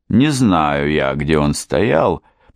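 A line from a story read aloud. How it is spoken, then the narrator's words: Grumbling woman. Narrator (Russian): проворчала она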